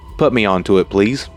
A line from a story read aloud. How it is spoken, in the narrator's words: said